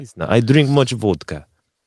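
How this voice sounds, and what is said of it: Bad put-on Russian accent. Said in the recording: “my confused Russian accent is a very good ... your Russian accent is terrible. It's terrible.”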